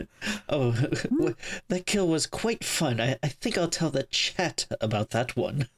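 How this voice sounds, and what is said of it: Posh English accent impression. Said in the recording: “Is that supposed to be an impression of me? ... Apparently I'm a rich Englishman living in a country house somewhere. Going by that impression.”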